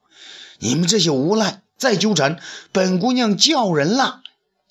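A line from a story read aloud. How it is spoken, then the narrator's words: Shout. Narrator (Chinese): 罗夫叫道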